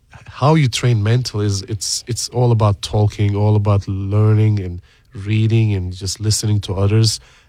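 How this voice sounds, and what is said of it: Non-American foreign accent. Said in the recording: “people can probably guess from your accent that you're not originally, your family's not originally from the United States”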